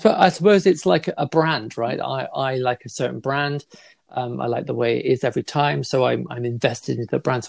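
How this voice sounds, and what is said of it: Somerset English accent. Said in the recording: “maybe not our Somerset one. No, it's quite endearing. It's quite endearing, actually.”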